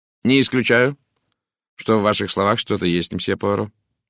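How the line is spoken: Cold. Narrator (Russian): холодно сказал он

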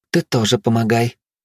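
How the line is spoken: Gentle. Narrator (Russian): ласково произнесла Белла

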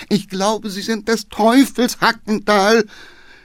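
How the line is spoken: Groaning from behind. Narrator (German): stöhnte der Geheimrat hinten

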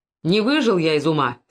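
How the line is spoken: Angry old man. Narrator (Russian): сердито заговорил старик

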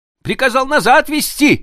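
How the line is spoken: Shout. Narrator (Russian): закричал он

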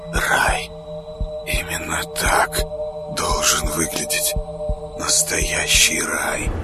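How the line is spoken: Soundless whisper. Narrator (Russian): шептал одними губами

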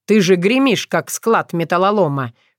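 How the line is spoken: Snort. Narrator (Russian): хмыкнул Филипп

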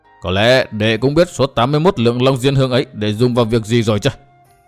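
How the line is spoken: Stern voice. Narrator (Vietnamese): Đinh Cao nghiêm giọng

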